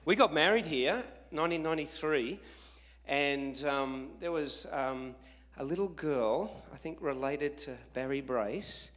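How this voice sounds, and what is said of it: Noticeable non-local accent. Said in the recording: “you'll adjust to my accent. I'll try to speak a bit slower ... Because of the accent.”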